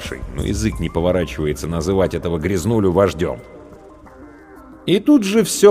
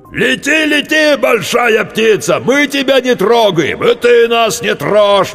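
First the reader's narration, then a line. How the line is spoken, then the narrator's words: Yelling. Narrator (Russian): вопил старший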